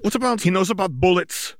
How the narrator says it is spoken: the witch shouted

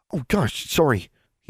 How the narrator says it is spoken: he panted a little

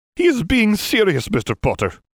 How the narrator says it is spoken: McGonagall snapped

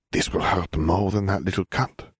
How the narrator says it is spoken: she whispered sadly

